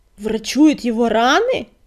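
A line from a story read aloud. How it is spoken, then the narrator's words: Roaring. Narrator (Russian): проревел он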